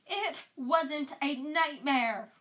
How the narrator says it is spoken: Ron yelled

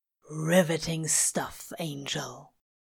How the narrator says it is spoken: Crowley murmurs

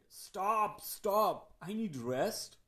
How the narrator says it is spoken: Again shouted

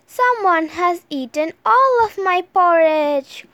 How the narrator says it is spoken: cried Baby Bear

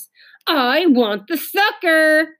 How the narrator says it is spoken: screamed Ramona

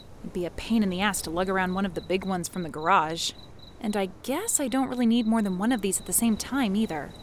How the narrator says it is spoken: she mumbled

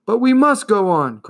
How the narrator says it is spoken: cried Atreyu

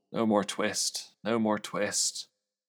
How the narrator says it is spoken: the poor old tailor was very ill with a fever, in his dreams he mumbled

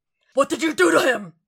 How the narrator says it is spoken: Frank roars downstairs

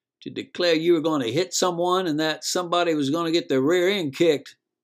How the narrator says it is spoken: shouting, not just talking

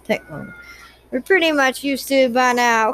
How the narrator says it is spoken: Claire laughed

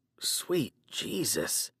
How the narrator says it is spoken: I muttered

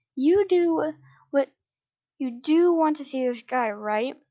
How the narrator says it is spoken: I gasped

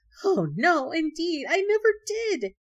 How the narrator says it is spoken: The rabbit, frightened out of his wits, exclaiming

